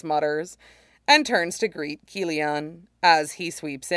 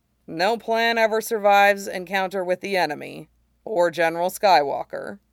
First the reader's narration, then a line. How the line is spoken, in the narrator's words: he says dryly